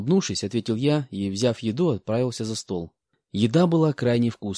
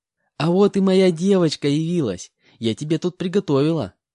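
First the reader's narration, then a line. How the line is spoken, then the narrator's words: Cheerful, smiling. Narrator (Russian): Радостно улыбаясь, сказала Лариса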